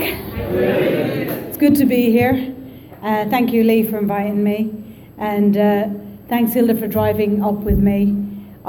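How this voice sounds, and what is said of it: Irish accent. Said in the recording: “So the accent is Irish, just in case you're wondering.”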